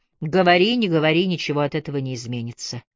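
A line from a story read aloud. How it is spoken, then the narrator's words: Sighing. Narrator (Russian): вздохнула она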